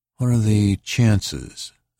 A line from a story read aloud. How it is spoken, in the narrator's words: Anita asked slowly